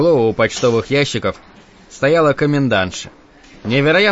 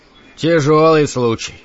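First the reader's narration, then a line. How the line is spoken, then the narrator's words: Sighing. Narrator (Russian): вздохнул Гарриш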